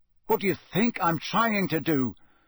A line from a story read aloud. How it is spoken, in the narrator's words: said Harry angrily